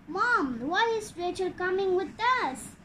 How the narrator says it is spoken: asked Angie in an irritated tone

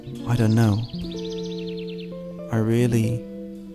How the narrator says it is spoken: In a soft voice, she said

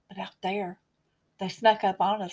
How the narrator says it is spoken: whispered

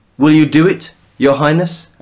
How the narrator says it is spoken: asked Seorsi

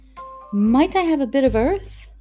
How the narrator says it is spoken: quavered Mary

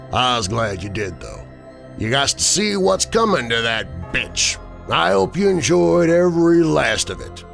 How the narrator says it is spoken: he said, chuckling

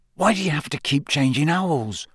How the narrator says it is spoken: Ron asked in a low voice

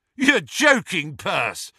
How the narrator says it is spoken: shouted Fred

